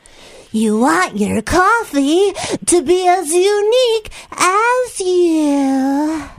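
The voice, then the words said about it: Cartoon character voice. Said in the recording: “did a cartoon voice for them ... Can you do the voice?”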